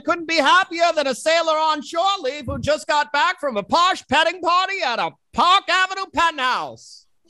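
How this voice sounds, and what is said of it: Old-time transatlantic radio announcer voice. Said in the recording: “1920s radio personality, transatlantic voice man ... transatlantic 1930s radio announcer voice”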